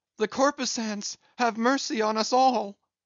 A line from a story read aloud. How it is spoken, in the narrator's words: immediately shifting his tone, he cried